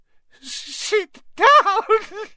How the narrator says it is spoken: wailed

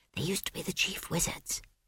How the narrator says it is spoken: whispered Esk

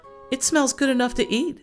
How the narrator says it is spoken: exclaimed

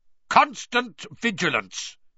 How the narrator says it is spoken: he barked

